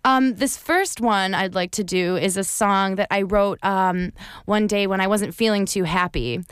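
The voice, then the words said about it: American accent. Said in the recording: “they have like American accents like you ... except for my accent. ... your accent's lovely.”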